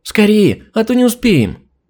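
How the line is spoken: Joyful squealing girls. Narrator (Russian): дочери радостно вереща

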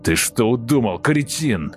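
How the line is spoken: Roaring giant. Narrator (Russian): проревел гигант

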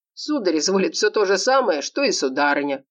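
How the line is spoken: Mocking reply. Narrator (Russian): отозвался Вадим насмешливо

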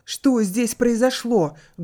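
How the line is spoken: Loud shout. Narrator (Russian): громко выкрикнул тот

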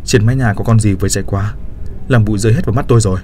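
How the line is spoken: Angry reply. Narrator (Vietnamese): Tôi tức giận trả lời

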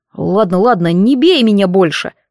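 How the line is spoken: Grumbling young man. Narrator (Russian): проворчал парень

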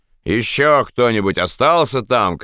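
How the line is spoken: Shouted. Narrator (Russian): крикнул Пабло

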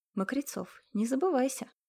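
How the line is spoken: Insinuating, silky. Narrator (Russian): вкрадчиво произнес Матвей

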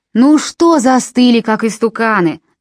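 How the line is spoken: Shouting man. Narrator (Russian): закричал человек в окне

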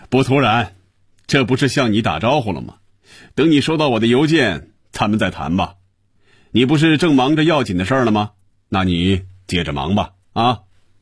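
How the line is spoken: Satisfied, laughing. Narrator (Chinese): 余威感觉舒服、满足、痛快，他笑着说

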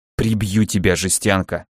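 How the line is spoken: Hissing. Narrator (Russian): прошипел я

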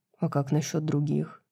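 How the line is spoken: Quiet question. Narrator (Russian): тихо спросил Хант

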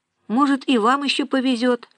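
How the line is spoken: Plain. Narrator (Russian): ответила Нина

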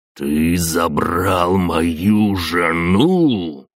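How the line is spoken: Hiss. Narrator (Russian): прошипел он

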